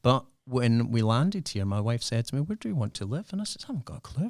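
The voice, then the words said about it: Non-local accent. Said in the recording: “my accent is not from here ... This has been Perthanized”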